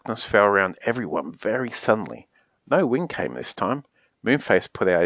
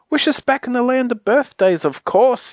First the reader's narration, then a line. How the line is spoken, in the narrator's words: yelled everyone in excitement